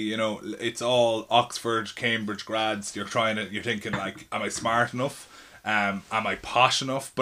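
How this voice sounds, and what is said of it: Irish accent. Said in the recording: “being Irish in London, because when they heard my accent”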